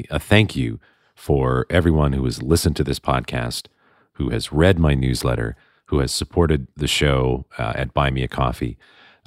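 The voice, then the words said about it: Congested voice from a cold. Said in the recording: “I have a terrible cold, which you can probably hear in my voice.”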